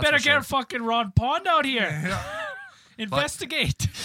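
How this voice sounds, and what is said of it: Usual voice. Nothing is said of it.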